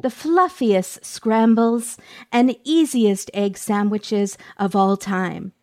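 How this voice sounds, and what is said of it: Put-on cooking show host voice. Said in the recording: “I don't know what this voice is that I'm doing, but I feel like I'm on the Food Network. ... that accent”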